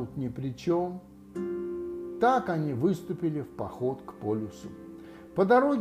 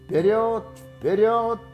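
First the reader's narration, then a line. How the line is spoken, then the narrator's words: Shouting. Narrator (Russian): кричал Кристофер Робин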